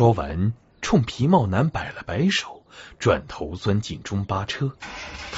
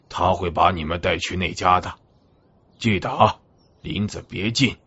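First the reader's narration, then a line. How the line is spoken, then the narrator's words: Hoarse. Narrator (Chinese): 司机声音沙哑地说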